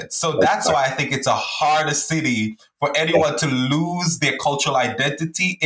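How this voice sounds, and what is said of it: Mixed Caribbean-New York accent. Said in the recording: “You hear an accent from me... my accent is a mixed accent”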